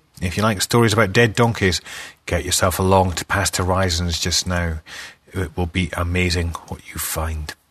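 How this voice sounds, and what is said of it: Strained, nearly lost voice. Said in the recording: “Nearly losing my voice.”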